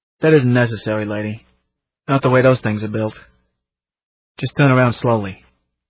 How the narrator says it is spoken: The second cop said kindly

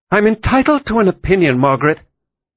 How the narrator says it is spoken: Jane snapped

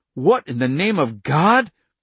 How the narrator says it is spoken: The hissing sound rose immediately, drowning out his voice

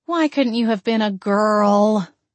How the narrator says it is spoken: I groaned

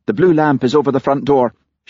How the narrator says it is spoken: she snapped

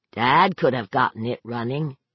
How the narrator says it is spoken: Brett said flatly

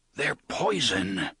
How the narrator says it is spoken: whispers

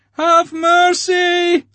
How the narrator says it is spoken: Leocha howled

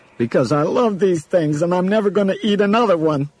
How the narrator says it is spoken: Steve said, sobbing harder than ever

